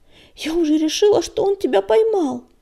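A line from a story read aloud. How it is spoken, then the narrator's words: Babbling, faltering. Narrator (Russian): пролепетала песчаная буря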